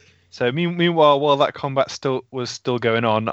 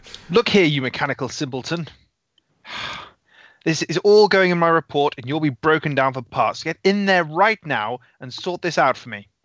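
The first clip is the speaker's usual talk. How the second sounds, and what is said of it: Yelling. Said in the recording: “I'm yelling outside at this at the robot.”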